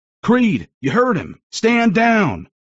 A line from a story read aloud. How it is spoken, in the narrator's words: Owen yelled after me